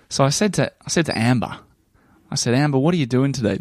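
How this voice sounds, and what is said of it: Heightened Australian accent. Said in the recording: “Maybe you could even turn on the Australian accent a bit more.”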